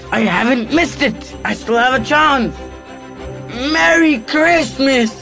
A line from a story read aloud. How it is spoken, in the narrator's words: he roared